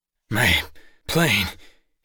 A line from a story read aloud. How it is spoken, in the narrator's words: he mumbled